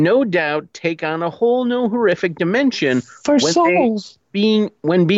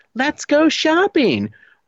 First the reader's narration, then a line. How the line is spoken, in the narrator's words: the talking Barbie of 1968, whose chirpy call-outs